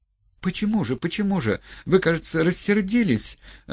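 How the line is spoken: Upset pleading question. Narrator (Russian): огорченным и умоляющим голосом спрашивала

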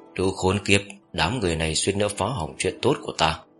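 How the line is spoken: Muttered cursing. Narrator (Vietnamese): Giác Trần miệng lẩm bẩm chửi rủa

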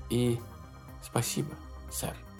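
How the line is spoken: Very quiet. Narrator (Russian): добавила она очень тихо

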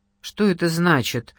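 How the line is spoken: Stern question. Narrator (Russian): строго спросила та

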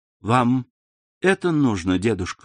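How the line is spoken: Plain. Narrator (Russian): сказала она

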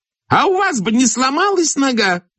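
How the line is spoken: Shrieking. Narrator (Russian): завизжала Кизьмина

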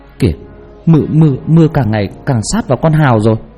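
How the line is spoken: Trembling voice. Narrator (Vietnamese): một người run rẩy

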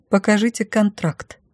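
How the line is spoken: Demanding. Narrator (Russian): потребовала я

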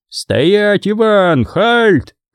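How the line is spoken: Shouting. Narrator (Russian): кричали немцы

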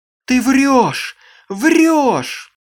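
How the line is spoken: Shouting. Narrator (Russian): закричала она

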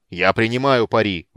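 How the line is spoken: Shouting. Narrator (Russian): выкрикнул

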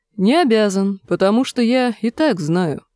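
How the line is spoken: Calm. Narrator (Russian): спокойно произнес констебль Пикша

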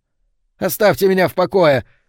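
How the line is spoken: Yell. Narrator (Russian): завопил Бенфилд

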